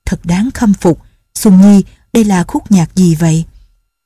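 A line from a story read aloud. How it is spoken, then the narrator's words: Sighing, admiring. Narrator (Vietnamese): Nhạc phu nhân thở dài, lòng đầy thán phục, bà nói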